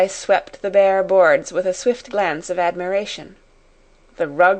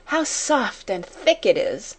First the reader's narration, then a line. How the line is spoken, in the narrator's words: she said with the little laugh which Becky knew the meaning of